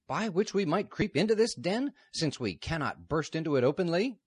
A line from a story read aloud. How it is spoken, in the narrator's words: Newt exclaimed furiously